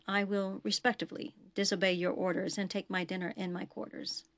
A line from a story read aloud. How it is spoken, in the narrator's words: he whispered